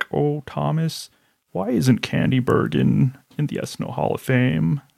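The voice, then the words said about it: Imitates another person's voice. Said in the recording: “way to slide that impression in there ... my bad Lauren impression”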